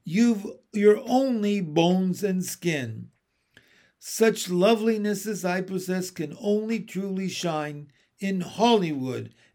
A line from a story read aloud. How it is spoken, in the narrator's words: Aunt Sponge cried out